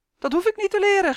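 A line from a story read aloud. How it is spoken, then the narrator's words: Boy shrieking. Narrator (Dutch): gilde de jongen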